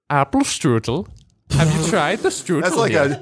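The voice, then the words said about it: Put-on German accent. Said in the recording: “I can do an okay German accent. ... That's like a German polka guy. ... That was like a polka apple guy.”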